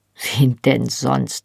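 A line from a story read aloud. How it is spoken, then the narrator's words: Dry retort. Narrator (German): fragte sie trocken zurück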